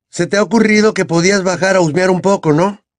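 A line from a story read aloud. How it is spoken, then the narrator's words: Shouted. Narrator (Spanish): gritó Harry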